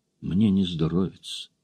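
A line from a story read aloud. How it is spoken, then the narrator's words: Quiet. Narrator (Russian): тихо сказала она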